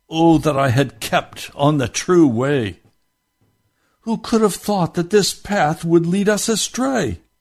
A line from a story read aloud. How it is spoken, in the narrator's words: Hopeful groaned in himself, saying